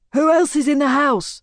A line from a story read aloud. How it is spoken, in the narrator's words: he shouts